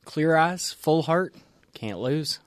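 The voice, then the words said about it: Put-on Southern accent. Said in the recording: “Thanks for that Southern accent, too.”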